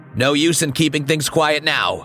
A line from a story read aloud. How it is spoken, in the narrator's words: he shouted